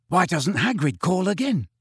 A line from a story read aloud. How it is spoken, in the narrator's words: he whispered